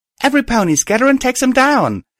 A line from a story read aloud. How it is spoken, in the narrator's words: I called out